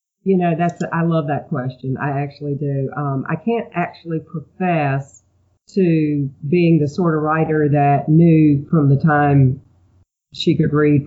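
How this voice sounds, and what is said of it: Southern American accent, slightly stuffy. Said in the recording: “You have an accent kind of like mine, and I love having Southern writers on the show ... I do have an accent ... It's probably a stuffy accent.”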